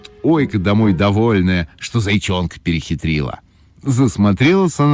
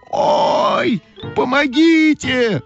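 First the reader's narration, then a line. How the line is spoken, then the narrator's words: Shouting. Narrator (Russian): закричала Ойка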